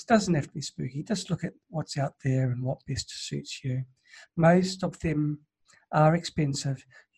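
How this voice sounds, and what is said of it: Strained, tired voice. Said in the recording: “My throat hasn't enjoyed it. ... I think if I go for another 5 minutes, I'll lose my voice.”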